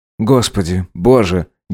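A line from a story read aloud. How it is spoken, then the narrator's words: Sigh. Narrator (Russian): Гедеон вздохнул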